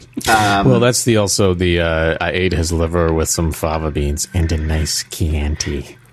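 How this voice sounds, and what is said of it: Hannibal Lecter impression. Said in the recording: “my Hannibal Lecter impression”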